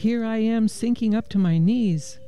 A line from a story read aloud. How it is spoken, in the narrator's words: cried